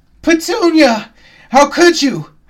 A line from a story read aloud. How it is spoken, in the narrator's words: I screamed